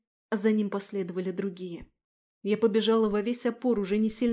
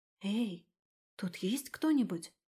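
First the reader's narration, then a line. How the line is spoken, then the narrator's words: Whispered call. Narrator (Russian): шепотом позвала я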